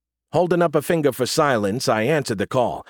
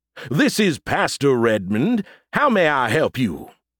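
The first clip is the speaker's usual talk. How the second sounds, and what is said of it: Deep, bad fake Southern accent. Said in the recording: “deepening my voice and putting on my awful southern accent. I sounded like a drunk Colonel Sanders ... I said in a deep voice, trying my terrible southern accent.”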